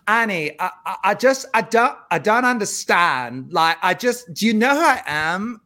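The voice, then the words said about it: Imitated Anna's odd, toddler-like accent. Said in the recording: “her accent ... I'll do my impression of her first ... It sounds like it's someone who's like, a toddler like learning how to speak ... you kind of nailed it”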